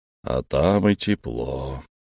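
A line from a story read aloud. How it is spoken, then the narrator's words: Sleepy mumble. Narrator (Russian): сонно пробормотал Эльм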